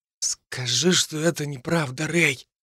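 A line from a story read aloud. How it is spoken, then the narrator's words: Whisper from the side. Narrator (Russian): прошептал с другого боку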